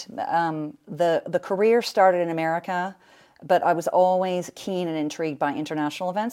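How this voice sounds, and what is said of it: American accent. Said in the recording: “You can tell from the American accent.”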